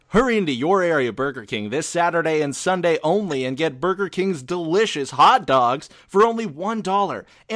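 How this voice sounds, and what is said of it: Exaggerated cheesy radio announcer voice. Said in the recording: “I'm going to do my really douchey radio voice for these”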